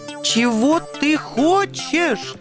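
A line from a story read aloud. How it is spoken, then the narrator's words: Shrill falsetto squeal. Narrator (Russian): Сорвавшись на тонкий фальцет, завизжал белый ангел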